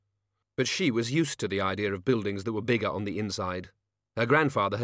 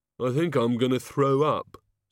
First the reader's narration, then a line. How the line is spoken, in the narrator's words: said the Oh God miserably